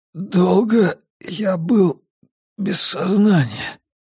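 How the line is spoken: Parched hoarse rasp. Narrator (Russian): Облизал пересохшие губы и только тогда прохрипел

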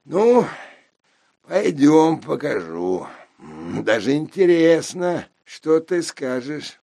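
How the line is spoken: Just after laughing. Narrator (Russian): Досмеявшись, он сказал

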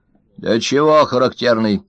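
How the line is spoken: Stern old man question. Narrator (Russian): строго спросил старик Ложкин

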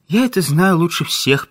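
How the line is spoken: Sad. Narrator (Russian): печально ответила Крупская

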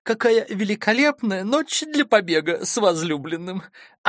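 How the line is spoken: Girlish laughter. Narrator (Russian): Она рассмеялась так, словно ей было 16

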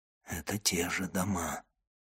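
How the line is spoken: Whisper. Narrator (Russian): шептал Монте-Кристо

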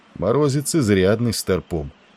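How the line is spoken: Calm. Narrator (Russian): спокойно проговорил он

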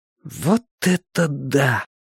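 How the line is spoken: Boy's breathless exclamation. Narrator (Russian): выдохнул один из оставшихся мальчишек

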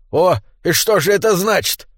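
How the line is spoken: Menacing exclamation, gnome. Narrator (Russian): воскликнул гном, угрожающе

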